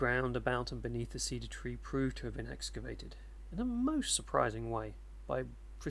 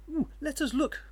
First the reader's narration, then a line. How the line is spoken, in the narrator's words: cried Akinosuke, greatly moved by this suggestion